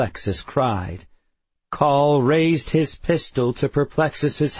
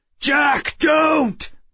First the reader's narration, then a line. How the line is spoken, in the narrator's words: Bentham shouted